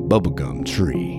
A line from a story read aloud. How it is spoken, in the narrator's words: muttered